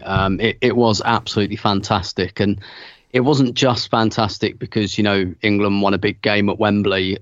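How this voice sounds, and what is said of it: Strained voice, still recovering. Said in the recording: “As you can probably tell from my voice, which is still recovering”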